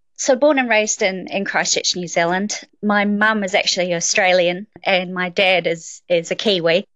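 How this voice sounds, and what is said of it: New Zealand accent with Australian tinge. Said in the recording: “a little bit of a strange accent ... she had a very strong Australian accent ... I get mistaken for being Australian quite often”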